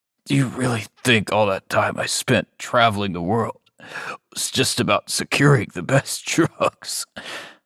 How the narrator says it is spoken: He chuckled despite the pain

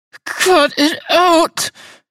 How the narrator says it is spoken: she pleaded

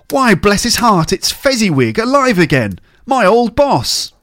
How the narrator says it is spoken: Scrooge cried in great excitement

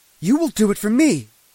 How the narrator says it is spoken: she shouted in my face

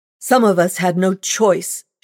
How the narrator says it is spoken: cried, her voice loud and harsh

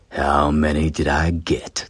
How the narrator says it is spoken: Tane sneered at them and said

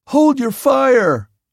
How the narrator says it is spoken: I yelled

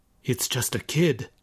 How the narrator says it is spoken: muttered Oshiro

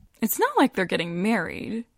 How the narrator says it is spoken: Joanna says with a breezy laugh

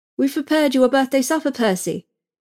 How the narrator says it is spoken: our governess said, brightly

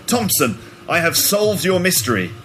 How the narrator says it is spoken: shouted Holmes confidently

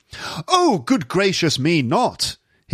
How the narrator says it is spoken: he cried

